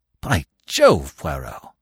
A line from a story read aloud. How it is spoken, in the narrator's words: I exclaimed